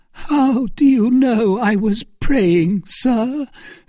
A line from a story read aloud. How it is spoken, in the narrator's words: said Milady in a voice broken by sobs